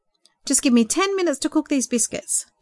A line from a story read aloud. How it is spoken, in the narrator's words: James said cheerfully